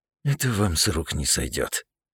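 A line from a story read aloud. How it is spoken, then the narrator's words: Old man muttering. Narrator (Russian): буркнул старик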